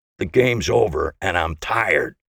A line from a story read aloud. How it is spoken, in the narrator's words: he growled